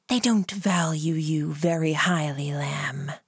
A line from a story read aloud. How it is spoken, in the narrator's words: hissed in my ear